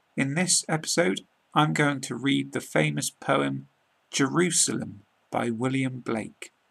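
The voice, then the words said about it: British English accent. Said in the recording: “British accent”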